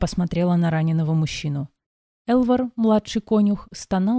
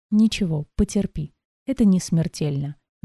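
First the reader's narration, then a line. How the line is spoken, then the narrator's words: Soft. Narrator (Russian): мягко произнес лекарь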